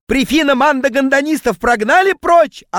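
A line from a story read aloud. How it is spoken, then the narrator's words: Yelling. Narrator (Russian): орал он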